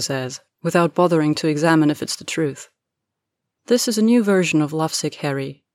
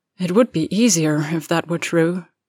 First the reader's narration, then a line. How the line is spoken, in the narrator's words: Draco sighs